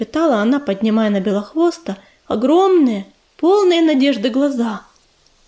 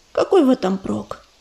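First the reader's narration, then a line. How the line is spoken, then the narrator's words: Sad question. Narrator (Russian): печально спросила Ромашка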